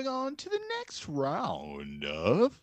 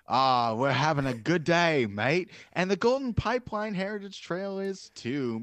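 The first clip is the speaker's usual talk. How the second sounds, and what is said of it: Put-on Australian accent. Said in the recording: “just for the effort on the accent alone”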